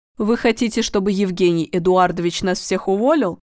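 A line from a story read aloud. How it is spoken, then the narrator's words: Angry question. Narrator (Russian): сердито спросила Людмила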